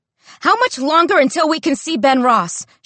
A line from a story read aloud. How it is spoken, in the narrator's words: she screams at the young Latina nurse